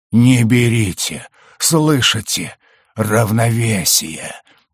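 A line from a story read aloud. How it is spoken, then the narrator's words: Wheezing young man. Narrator (Russian): просипел парень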